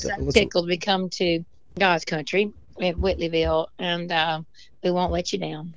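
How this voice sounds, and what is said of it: Worn-out, strained voice. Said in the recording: “my voice is shot. I'm going to have to let you go. I got to rest it.”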